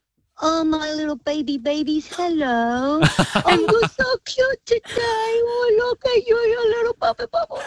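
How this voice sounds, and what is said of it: Baby voice. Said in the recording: “talk to us in a baby voice.”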